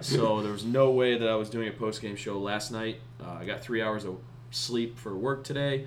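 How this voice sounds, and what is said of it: Hoarse, partly lost voice. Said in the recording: “my voice is still kind of gone. It was like completely gone last night.”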